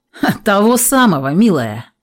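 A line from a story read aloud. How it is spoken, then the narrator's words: Smirking snort. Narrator (Russian): хмыкнул он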